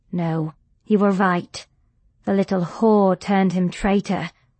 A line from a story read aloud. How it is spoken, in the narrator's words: snarled Margaret